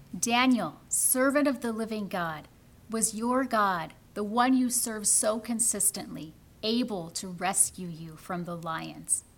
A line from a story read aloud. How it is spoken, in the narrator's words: Darius called out to Daniel, worried